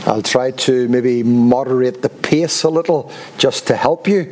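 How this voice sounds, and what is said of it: Noticeable accent. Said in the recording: “hope you don't have too much trouble with the accent”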